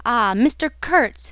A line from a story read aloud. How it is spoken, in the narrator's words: exclaimed